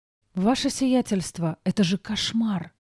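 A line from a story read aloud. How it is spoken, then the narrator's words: Whisper. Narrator (Russian): прошептала Диана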